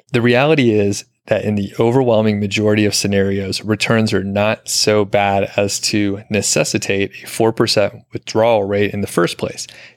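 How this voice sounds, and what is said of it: Deep, authoritative reading voice. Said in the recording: “You have a better, more authoritative voice. So deep voice, say this with authority”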